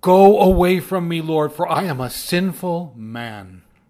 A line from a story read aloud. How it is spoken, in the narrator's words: he shouted